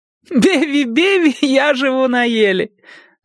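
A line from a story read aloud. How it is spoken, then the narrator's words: Reply then loud laughter. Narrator (Russian): ответила она и вновь захохотала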